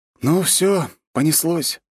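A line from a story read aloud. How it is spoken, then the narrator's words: Sighing. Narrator (Russian): вздохнул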